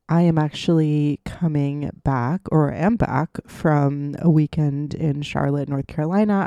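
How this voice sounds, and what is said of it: Voice sounds off, sick. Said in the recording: “my voice sounds a little bit off, it is because I am sick right now”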